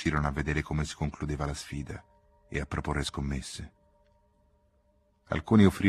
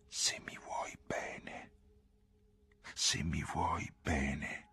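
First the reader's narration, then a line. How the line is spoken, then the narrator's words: Whisper. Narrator (Italian): fu quanto gli sussurrò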